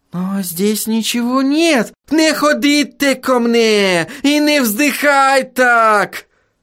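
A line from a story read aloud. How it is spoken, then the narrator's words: Howling wail. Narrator (Russian): взвыл Отто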